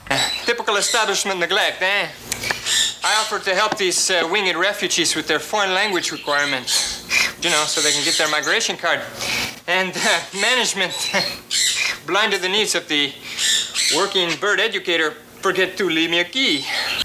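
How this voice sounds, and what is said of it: Exaggerated fake accent. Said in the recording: “that fake Izzy accent ... just a little too much”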